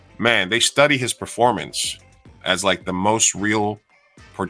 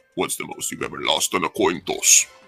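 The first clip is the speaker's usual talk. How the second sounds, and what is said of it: Imitates another person's voice, menacing. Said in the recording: “That's a damn good Javier Bardem impression ... That was scary.”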